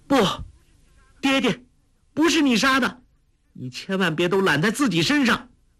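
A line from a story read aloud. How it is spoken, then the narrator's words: Woman crying out. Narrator (Chinese): 一个女子声音叫道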